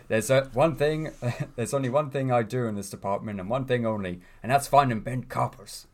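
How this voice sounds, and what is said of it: Poor Belfast accent, Ted Hastings impression. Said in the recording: “that's a terrible Belfast accent”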